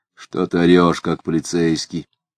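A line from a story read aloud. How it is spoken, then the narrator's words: Half-voiced, low. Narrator (Russian): сказал Дронов в полголоса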